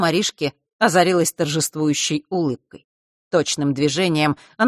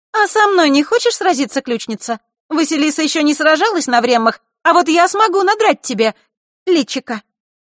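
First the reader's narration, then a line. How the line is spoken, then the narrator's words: Sudden shout. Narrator (Russian): Диана вдруг выкрикнула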